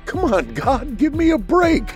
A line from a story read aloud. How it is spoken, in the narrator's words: the man pleaded